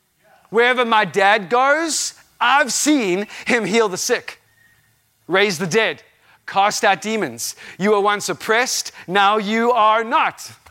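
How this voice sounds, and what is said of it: Very loud voice. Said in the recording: “My voice is really loud, obviously.”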